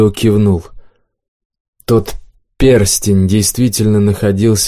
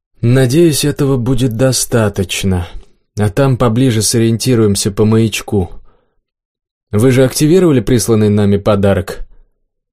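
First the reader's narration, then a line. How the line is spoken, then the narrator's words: Sighing, quiet. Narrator (Russian): Никас вздохнул и тихо сказал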